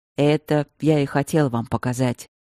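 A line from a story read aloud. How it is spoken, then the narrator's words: Heavy grumble. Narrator (Russian): тяжело буркнул Стрелковский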